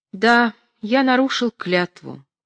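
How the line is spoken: Sad old man. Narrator (Russian): грустно сказал старик

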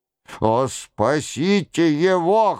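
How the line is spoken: Rasping. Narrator (Russian): хрипел Нострадамус

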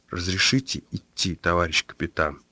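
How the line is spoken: Quiet, insistent repetition. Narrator (Russian): Так же тихо, настойчиво повторил он

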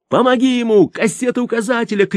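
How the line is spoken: Shouted. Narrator (Russian): крикнул Крылов Алеше

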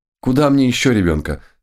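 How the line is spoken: Exclamation. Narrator (Russian): воскликнула она

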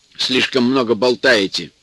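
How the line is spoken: Stern remark. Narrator (Russian): строго заметил он

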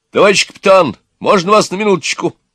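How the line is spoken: Loud shout. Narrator (Russian): громко крикнул

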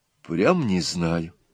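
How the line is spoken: Quiet and sad. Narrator (Russian): тихо и грустно опять сказала Нюра

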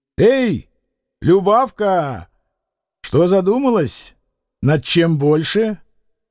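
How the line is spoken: Father's shout. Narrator (Russian): отец крикнул ей

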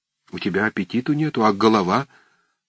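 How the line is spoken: Timid voice. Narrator (Russian): прибавил он робким голосом

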